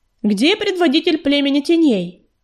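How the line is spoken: Loud shout. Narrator (Russian): громко крикнула пятнистая звезда

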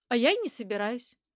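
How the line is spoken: Plain. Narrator (Russian): ответила я

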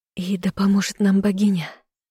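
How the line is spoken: Sighing. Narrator (Russian): вздохнула я

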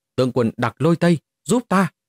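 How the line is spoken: Terrified loud cry. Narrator (Vietnamese): Mục Thiên Hoa lập tức quá sợ hãi, cao giọng hô to

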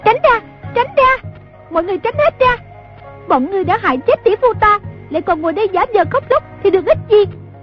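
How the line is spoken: Girl's shrill shout. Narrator (Vietnamese): giọng một thiếu nữ hét lên lanh lảnh

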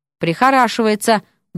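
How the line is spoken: Sudden grumble. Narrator (Russian): буркнул вдруг Миша

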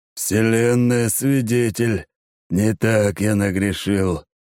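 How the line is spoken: Hoarse sighing. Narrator (Russian): с хриплым вздохом произносит Кэп

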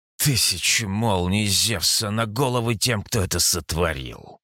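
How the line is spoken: Strained hiss. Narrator (Russian): Прошипел я, хотя старался говорить в полный голос

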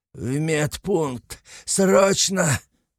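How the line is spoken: Growling. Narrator (Russian): прорычал вождь

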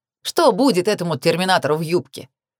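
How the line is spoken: Snorting. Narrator (Russian): фыркнул Натан

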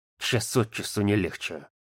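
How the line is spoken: Grumbling. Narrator (Russian): проворчал Тоха

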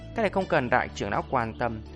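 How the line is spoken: Cold faint laugh. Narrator (Vietnamese): Mộc Trần nghe vậy cười nhạt

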